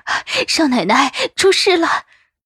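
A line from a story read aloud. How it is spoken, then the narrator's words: Breathless. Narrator (Chinese): 双叶喘着气说着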